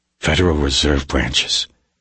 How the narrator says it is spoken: Reacher said quietly

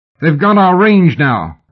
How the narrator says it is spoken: Brian shouted

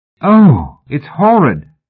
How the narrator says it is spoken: cried Hetty

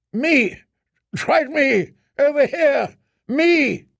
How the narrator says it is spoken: Barristan Selmy shouting

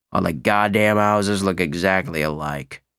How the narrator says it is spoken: he muttered

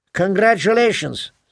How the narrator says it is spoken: Santino said

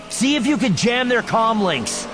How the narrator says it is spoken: yells Luke

